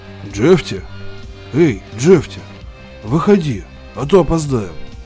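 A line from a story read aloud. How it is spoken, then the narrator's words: Muffled, as from underground. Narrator (Russian): откликнулся глухо, будто из-под земли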